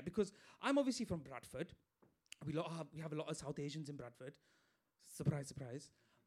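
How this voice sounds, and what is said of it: Bradford accent. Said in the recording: “I'm from Bradford, as you can tell by my accent.”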